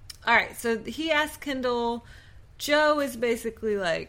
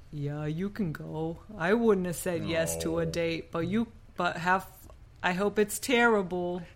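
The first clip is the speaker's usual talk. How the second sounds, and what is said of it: Impression of a TV character's accent. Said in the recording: “That's a pretty good Joe. ... Pretty good Joe accent.”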